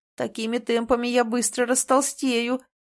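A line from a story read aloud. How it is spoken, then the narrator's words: Moaning. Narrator (Russian): простонал принц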